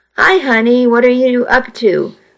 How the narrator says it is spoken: my mom asked

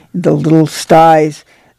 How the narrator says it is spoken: the pigs grunted inquiringly

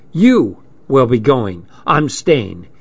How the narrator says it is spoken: she said firmly

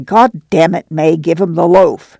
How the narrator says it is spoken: Al said snarlingly

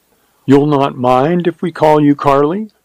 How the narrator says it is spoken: she asked eagerly

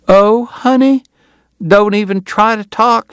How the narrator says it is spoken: she cried

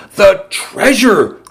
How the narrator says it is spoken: cried Salvador

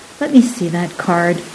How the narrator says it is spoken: he interrupted softly

